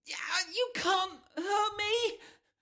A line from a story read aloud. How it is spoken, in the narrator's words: she cries